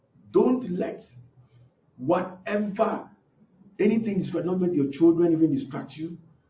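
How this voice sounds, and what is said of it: Speaker's own noticeable accent. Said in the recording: “my accent”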